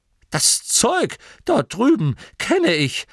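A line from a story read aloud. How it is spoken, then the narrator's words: Excited old man. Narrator (German): sagte der alte Torrid aufgeregt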